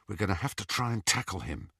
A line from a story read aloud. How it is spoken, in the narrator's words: he whispered to Ron